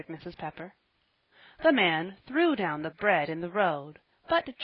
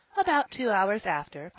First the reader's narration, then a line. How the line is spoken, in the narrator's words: Polly said merrily